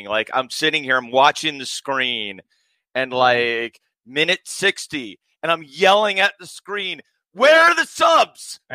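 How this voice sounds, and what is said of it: Hoarse voice. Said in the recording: “I'm sorry, my voice is hoarse”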